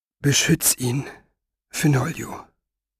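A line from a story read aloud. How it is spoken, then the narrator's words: Whisper. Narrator (German): flüsterte Maggie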